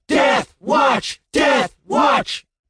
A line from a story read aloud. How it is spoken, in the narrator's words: the crowd screamed